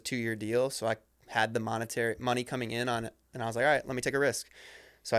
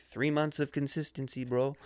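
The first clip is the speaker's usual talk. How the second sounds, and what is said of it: Poorly done put-on accent. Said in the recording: “that's a horrible accent”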